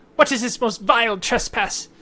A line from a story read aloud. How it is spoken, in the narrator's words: in common, they yell out